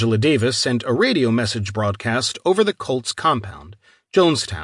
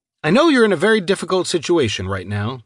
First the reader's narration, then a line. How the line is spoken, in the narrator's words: she said